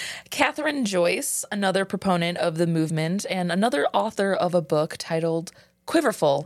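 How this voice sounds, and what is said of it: Usual voice. Nothing is said of it.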